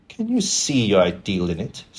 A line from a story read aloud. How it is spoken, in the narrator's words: said Dorian bitterly